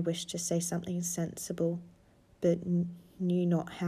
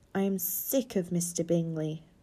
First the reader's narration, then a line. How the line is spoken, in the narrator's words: cried his wife